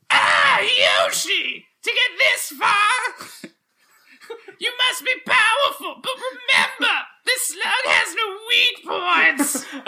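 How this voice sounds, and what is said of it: Cartoonish villain character voice. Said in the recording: “do the voice of Sluggy the Unshaven”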